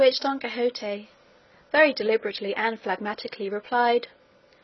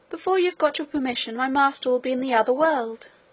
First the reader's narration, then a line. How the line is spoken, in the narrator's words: exclaimed Maritornes